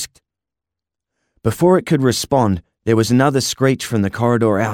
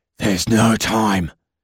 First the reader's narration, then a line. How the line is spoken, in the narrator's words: the creature hissed